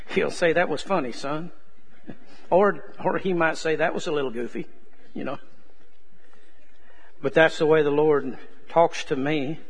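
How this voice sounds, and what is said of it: Texas accent. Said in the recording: “he understands my Texas accent”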